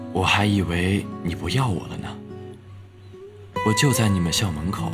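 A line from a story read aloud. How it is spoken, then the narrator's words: Emotional, hoarse voice. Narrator (Chinese): 电话那头激动的半天没说话，良久才听到一个有些沙哑的声音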